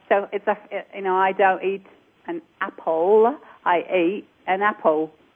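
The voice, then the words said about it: Original accent dropping final L sounds. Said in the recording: “Is not to use any final L's. ... that's my natural or my original accent”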